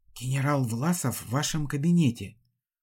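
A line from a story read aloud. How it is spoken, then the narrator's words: Whispering. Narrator (Russian): прошептал он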